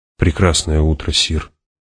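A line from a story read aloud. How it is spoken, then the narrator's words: Quiet. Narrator (Russian): тихо произнес охранник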